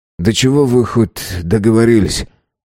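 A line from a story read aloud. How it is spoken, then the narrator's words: Sighed. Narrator (Russian): вздохнул Юнц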